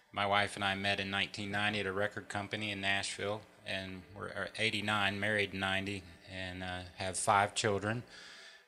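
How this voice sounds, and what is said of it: Southern US accent. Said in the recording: “I have a Southern accent. That's a North Carolina and Tennessee accent.”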